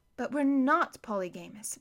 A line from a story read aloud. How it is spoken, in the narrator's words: Violet said mournfully